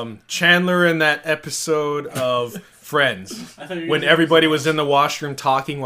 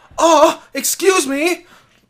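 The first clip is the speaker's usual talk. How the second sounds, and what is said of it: Impression of Chandler from Friends. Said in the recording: “good Chandler impression”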